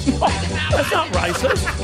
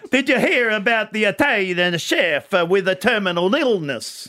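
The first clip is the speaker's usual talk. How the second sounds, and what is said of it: Put-on Italian accent. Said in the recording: “I've just got to get into my accent. ... See, the accent, the good joke”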